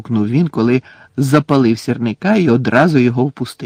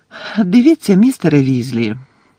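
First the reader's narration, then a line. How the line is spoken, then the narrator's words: Gentle. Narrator (Ukrainian): лагідно мовила Герміона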